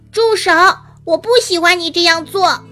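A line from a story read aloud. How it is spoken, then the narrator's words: Loud repetition. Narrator (Chinese): 吉米大声重复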